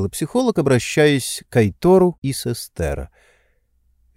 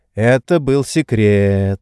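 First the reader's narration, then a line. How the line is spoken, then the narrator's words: Drawling. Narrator (Russian): протянул Айтор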